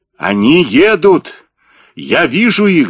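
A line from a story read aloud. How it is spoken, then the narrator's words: Yelling. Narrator (Russian): заорал Блек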